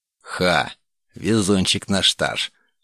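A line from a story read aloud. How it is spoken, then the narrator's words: Snorting smirk. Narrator (Russian): хмыкнул Дейтуш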